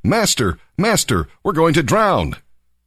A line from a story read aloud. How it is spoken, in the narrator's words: shouting